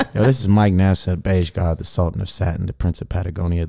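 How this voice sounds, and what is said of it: Silky, sexy smooth voice. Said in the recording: “I'm on my sexy voice ... Silky like a do-rag in your ears”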